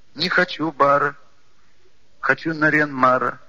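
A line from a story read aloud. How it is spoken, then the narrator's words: Child's rhyming whine. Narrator (Russian): складно проскулил маленький Бельдыев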